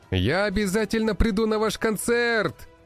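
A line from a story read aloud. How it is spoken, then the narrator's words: Shout. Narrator (Russian): прокричал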